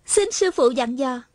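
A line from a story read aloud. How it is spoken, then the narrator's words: Delighted, smiling. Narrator (Vietnamese): Hà Thiết Thủ mừng rỡ, mỉm cười nói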